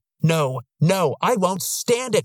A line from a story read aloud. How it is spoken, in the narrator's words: bellowed